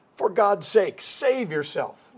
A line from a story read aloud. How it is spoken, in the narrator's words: yelling